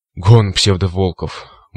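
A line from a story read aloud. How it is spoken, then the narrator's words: Breathed out. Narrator (Russian): выдохнул циклоп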